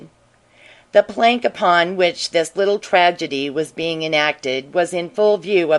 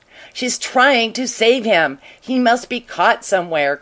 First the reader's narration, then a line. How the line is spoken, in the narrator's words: cried the lawyer